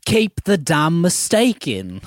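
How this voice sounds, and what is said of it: Weak English accent impression. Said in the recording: “You need to do a better English accent.”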